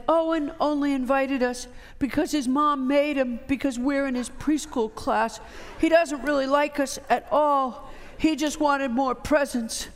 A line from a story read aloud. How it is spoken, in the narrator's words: Sadness, in her characteristic slow blue voice, said